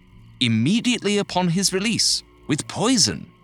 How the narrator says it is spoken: the man said eagerly

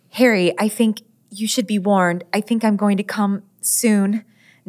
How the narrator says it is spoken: sputtered

